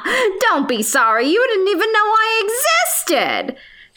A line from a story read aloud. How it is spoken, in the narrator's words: said with a laugh